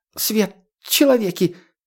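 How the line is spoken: Squeak. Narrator (Russian): пискнул подземник

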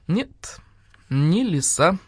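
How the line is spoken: Calm. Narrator (Russian): спокойно сказал барсук

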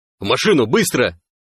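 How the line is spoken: Barked. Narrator (Russian): рявкнул сталкер

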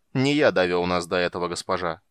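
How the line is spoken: Cold. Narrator (Russian): холодно произнес Рошас

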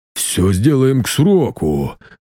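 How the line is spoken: Workman's deep bass. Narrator (Russian): пробасил мастеровой

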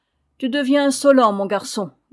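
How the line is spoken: Grumbled. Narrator (French): grommela-t-il

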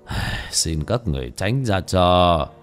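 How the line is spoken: Monk sighing. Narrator (Vietnamese): Bất Táng Hòa Thượng thở dài

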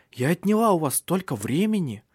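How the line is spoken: Exclaiming. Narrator (Russian): воскликнула она

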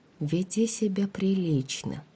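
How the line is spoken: Whispered. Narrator (Russian): прошептала

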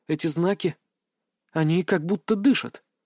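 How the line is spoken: Mumbled. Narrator (Russian): пробормотала Аня

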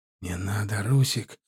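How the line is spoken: Whispered. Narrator (Russian): шепнул ему Адам

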